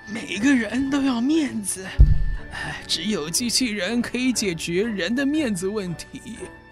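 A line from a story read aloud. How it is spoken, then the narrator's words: Sighing with emotion. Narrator (Chinese): 伤脑筋博士感叹的说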